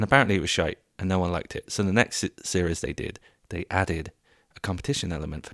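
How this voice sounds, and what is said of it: Usual voice. Nothing is said of it.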